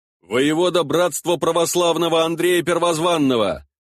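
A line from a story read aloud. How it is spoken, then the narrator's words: Proud, deliberately loud answer. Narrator (Russian): отвечал я горделиво, нарочито громко, чтобы услышали все присутствующие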